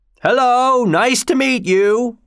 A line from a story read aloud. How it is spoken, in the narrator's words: cried the Aged